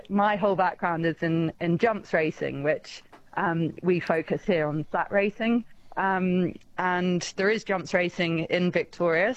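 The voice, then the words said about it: Non-local foreign accent. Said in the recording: “I don't know if you can tell from my accent, but I'm not from that.”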